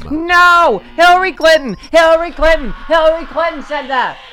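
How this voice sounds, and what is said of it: Yelling. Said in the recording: “Why are you yelling at me?”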